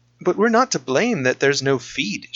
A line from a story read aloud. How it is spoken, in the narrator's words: exclaimed